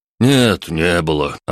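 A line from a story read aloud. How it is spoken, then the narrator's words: Sighing. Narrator (Russian): Антон вздохнул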